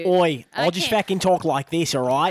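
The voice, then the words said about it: Bad put-on Australian accent. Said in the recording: “That's fucking bad. ... I was just talking in my Australian voice.”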